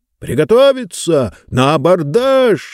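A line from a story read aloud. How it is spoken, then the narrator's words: Shouting gang leader. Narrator (Russian): заорал один из них, видимо, главарь этой шайки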